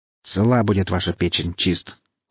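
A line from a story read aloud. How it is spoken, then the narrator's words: Cold remark. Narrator (Russian): холодно заметил профессор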